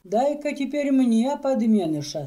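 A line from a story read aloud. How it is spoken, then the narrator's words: Plain. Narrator (Russian): сказал он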